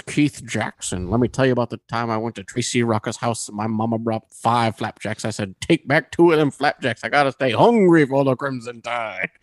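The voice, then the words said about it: Impression of commentator Keith Jackson. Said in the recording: “So he did impression of Keith Jackson ... Brett Favre would do an impression of Keith Jackson, the commentator.”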